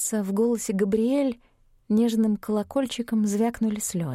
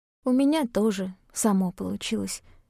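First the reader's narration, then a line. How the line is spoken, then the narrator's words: Hoarse interjection. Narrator (Russian): хрипло вставила я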